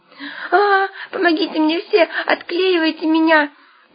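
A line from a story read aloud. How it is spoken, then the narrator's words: Indignant squealing. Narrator (Russian): возмущенно взвизгивал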